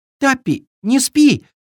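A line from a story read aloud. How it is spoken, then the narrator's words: Exclaimed. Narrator (Russian): воскликнул Триша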